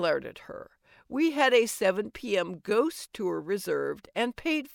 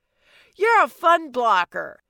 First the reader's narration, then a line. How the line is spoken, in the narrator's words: Mina yelled at me